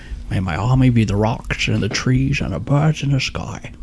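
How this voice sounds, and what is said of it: Sean Connery impression. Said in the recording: “I have to channel my inner Sean Connery... That there, Sean Connery.”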